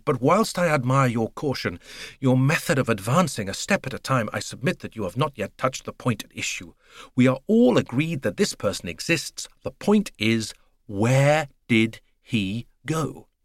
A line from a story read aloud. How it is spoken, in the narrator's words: he said impatiently to Poirot